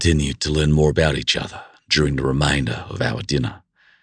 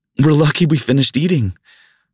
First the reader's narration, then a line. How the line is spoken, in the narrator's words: she exclaimed with a giggle